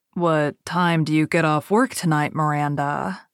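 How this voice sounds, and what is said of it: Cultured, exotic-sounding accent. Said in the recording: “His accent sounded cultured and exotic, especially in comparison to the nasal New England vowels of his friends.”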